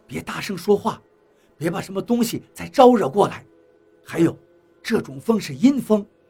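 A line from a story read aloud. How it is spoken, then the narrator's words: Soft, urgent. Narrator (Chinese): 何洛 对张广川 轻声道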